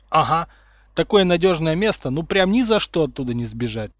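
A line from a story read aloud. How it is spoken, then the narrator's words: Sardonic snort. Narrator (Russian): сардонически хмыкнул Сириус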